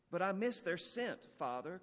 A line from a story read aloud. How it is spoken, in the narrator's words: cried Aurelia